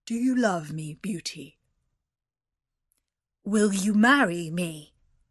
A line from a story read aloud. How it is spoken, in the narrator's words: he said in a gruff voice